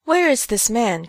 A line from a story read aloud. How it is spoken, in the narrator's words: cried Than Kosas